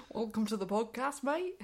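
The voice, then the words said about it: Put-on Yorkshire-Australian accent. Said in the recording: “I don't know what accent that is. ... It's a bit Australian. ... Is that kind of a Yorkshire Australian? ... It's a Yorkshireman that's been sent to Australia.”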